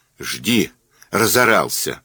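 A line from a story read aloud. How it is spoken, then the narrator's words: Girl snapping back. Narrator (Russian): огрызнулась девчонка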